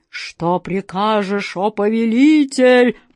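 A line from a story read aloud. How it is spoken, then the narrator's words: Booming genie voice. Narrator (Russian): прогремел джинн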